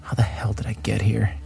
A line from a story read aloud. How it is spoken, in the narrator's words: He muttered to himself out loud